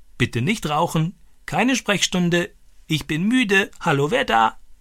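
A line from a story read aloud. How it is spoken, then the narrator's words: Croaked in imitation. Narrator (German): Stani krächzte diese Sätze wie Boga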